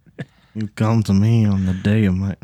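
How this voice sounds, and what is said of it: Bad Marlon Brando impression. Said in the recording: “that bad Marlon Brando impersonation”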